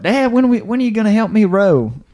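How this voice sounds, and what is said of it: Put-on southern accent. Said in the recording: “do your southern accent.”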